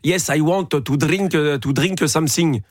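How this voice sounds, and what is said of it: Put-on flowing French accent. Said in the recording (French): “Ça, c'est un accent français... C'est un accent français coulant.”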